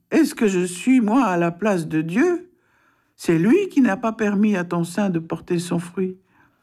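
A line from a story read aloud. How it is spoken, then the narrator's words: Angry exclamation. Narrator (French): Jacob s'irrita contre Rachel et s'écria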